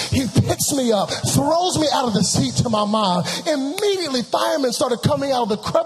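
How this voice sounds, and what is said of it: Usual voice. Nothing is said of it.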